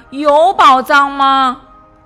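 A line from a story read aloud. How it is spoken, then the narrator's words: Calling out. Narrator (Chinese): 小熊叫道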